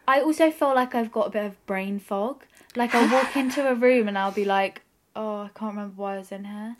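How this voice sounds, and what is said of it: Nasal, congested voice. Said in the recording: “We're both quite nasally. Yeah. You can probably tell.”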